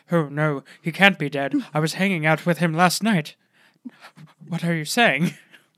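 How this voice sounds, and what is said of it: Breathy imitation of another person's voice. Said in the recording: “my Robin Williams impression ... It's very breathy and like kind of Bee Gees like.”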